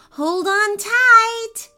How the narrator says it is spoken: Ava shouted

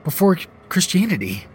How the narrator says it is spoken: I stammered

